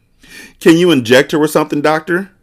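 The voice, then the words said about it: Shaky, trembling voice. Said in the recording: “said in a shaky voice.”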